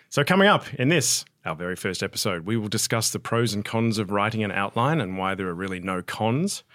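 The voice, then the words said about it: Australian accent. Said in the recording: “Australian film and TV trivia, because that's where my accent is from, in case you're wondering, mate”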